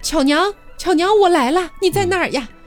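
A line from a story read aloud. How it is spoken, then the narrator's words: Loud shout. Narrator (Chinese): 大声地喊道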